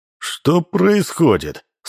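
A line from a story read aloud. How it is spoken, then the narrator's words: Menacing question. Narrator (Russian): спросил он грозно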